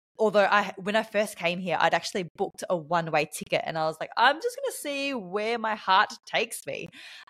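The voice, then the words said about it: Australian accent. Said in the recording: “you may be able to tell from my accent that I am from Australia”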